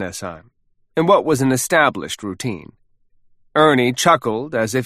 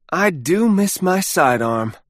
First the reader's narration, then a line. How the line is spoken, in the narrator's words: Ernie said wistfully